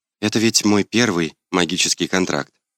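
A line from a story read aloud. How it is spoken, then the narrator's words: Quiet addition. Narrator (Russian): тихо добавила она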